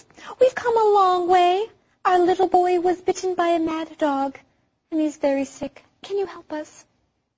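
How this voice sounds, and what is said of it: Motherly character voice. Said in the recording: “That is my mother voice. ... That is a great voice.”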